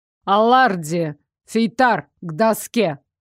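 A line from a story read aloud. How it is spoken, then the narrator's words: Barked. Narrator (Russian): рявкнул профессор Хроу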